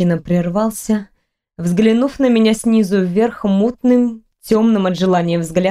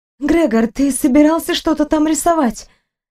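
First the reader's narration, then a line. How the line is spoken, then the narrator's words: Gasping exclamation. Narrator (Russian): я ахнула, воскликнув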